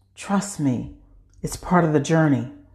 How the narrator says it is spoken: whispers

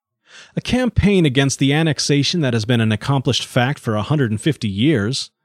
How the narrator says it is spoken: exclaimed Mr

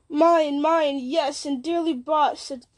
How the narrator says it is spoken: cried Saruman

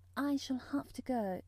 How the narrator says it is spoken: said mournfully

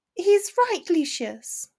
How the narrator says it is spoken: Narcissa said softly

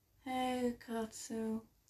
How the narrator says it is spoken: mumbled, hoping he heard me

